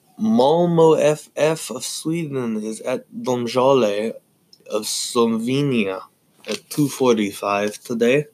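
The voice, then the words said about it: Put-on foreign accents. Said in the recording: “I don't know why I'm doing these accents.”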